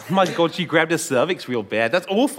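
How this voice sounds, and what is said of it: Put-on Australian accent. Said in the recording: “does an amazing Australian accent”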